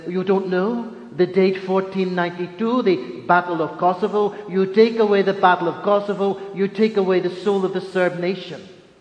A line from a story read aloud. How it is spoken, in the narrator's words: In a very strong Serbian accent, he says